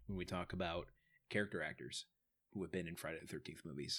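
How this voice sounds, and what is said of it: Mock-serious voice. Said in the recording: “serious voice”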